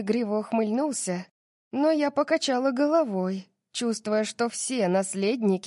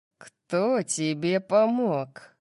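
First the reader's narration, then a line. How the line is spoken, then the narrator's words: Growled. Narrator (Russian): прорычал он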